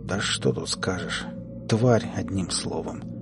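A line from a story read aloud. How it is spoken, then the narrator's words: Quiet speech. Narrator (Russian): тихо произнес Клим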